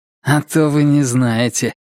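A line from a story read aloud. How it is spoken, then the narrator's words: Grumbled, man. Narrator (Russian): буркнул мужчина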